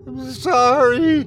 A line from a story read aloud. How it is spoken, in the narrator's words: the man scream